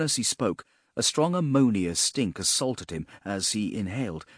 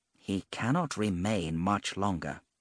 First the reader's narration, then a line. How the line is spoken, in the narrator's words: Aside to the female, he murmured